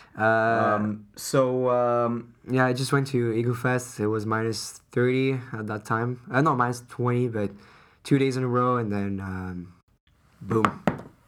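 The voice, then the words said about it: Hoarse, strained voice from illness. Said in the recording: “My voice is dead, guys. ... my voice is dead ... He's still sick, guys.”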